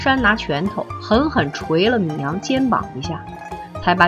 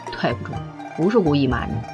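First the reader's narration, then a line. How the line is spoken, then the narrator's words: Low voice. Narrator (Chinese): 低声说了句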